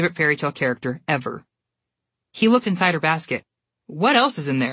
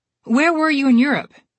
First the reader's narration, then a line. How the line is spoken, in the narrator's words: Alex asked, desperately trying to change the subject